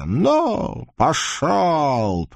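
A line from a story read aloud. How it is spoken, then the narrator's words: Hoarse growl. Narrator (Russian): прорычала хрипло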